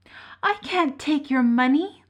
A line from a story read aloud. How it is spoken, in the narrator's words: Lukas cried, deeply touched at the gesture